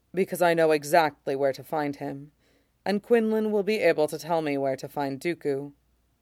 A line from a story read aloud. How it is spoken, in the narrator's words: Shock says calmly